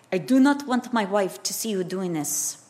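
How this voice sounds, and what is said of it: Put-on Yugoslavian accent. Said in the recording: “I don't know if that's a Yugoslavian accent, but just bear with me.”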